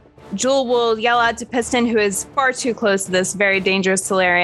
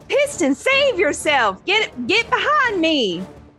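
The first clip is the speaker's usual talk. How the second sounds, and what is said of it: Character voice with shifting accent. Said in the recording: “every time that I speak for Jewel, her accent changes”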